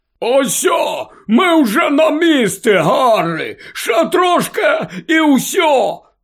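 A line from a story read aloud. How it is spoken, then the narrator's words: Shouted. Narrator (Ukrainian): крикнув Гегрід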